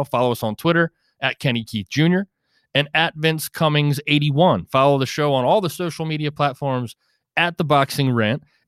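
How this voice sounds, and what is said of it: Deliberately condescending tone. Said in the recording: “that was a very condescending tone right there, and purposely used”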